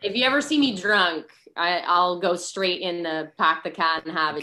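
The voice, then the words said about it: Exaggerated New England accent. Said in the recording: “I lost my New England accent ... when I drink, it comes out.”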